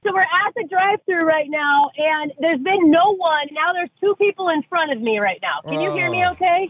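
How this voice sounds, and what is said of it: Yelling, loud nervous speech. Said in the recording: “are you yelling?... Yes, I'm yelling because I'm nervous!”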